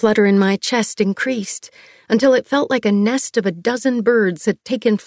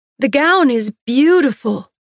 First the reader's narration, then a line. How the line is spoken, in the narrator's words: I called out